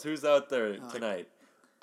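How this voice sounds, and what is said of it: Stand-up comedian voice. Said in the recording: “is that a good impression of a stand-up comedian? ... Nailed it. ... That was my Jerry Seinfeld.”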